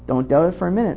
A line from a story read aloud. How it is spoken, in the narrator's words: returned the old man in an even tone